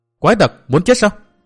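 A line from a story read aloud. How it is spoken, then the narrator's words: Hurried loud shout. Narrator (Vietnamese): Bích Duyên Hồng đã vội vàng hét to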